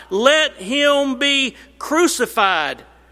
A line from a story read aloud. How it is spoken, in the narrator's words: They cried out